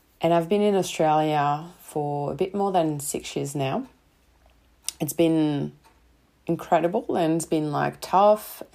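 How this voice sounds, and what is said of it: Slight French accent. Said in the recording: “I'm sure you can tell by a slight accent. I love to think that I've got just a slight accent. ... I'm not an English native speaker. I'm coming from France and from Paris”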